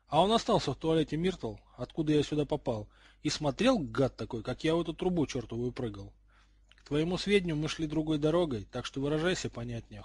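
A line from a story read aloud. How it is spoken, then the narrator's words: Cold. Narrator (Russian): холодно сказал Гарри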